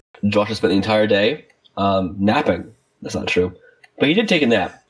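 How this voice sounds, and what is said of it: Congested voice from a cold. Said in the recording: “I'm too sick to do that this time. I have a cold”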